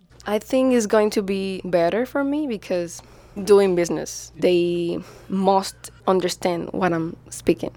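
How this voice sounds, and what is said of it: Non-native English accent. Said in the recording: “their accents draw unwanted attention ... if they don't speak English with less accent”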